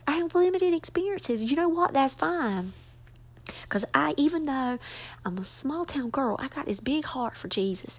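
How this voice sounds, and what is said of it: Southern American accent. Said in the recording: “my accent is Southern”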